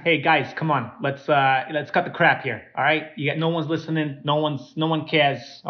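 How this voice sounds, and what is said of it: Put-on New York accent. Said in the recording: “He's got a New York accent.”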